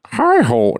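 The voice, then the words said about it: Kermit the Frog character voice. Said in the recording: “Like Kermit the Frog? ... Can you do an impression? ... that's actually not that bad.”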